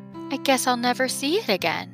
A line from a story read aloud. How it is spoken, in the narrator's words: added wistfully